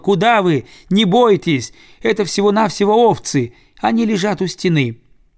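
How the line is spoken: Little one shouting. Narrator (Russian): малыш-коротыш закричал

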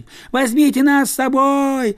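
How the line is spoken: Children yelling. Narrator (Russian): завопили дети

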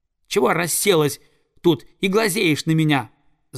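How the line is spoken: Yelling, young eagle. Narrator (Russian): завопил орленок

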